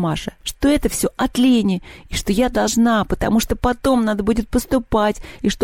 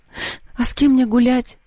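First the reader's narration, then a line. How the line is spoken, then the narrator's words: Sigh. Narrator (Russian): вздохнула Маша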